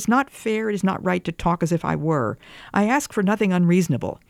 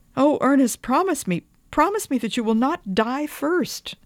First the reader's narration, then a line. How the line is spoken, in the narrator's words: I pleaded